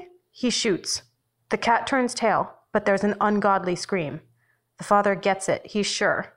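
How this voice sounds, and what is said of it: Usual voice. Nothing is said of it.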